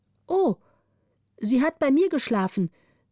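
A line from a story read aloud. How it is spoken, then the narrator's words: Orphan calling out. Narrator (German): rief die Waise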